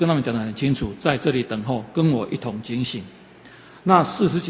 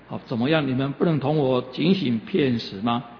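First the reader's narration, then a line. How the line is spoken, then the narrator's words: Plain. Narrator (Chinese): 就对他们说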